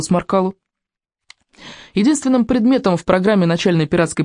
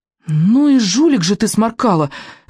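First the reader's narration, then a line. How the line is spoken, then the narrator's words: Heated exclamation. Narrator (Russian): горячо воскликнул рыбьенок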